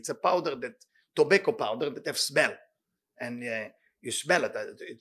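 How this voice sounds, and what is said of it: Speaks English with a foreign accent. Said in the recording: “with my accent, it will sound really terrible”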